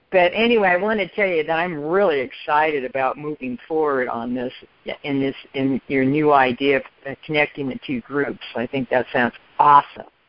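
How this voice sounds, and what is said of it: Congested, sick-sounding voice. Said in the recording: “I've got a bit of a cold, so I'm in a little bit of a fog tonight”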